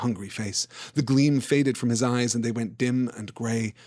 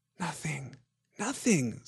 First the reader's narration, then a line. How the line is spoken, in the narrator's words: said Gollum softly